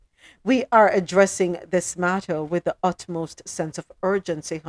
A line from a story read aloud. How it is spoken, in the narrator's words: Hunter says